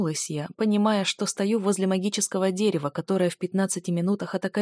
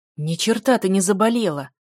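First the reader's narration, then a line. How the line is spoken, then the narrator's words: Growl. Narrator (Russian): рыкнул маг тьмы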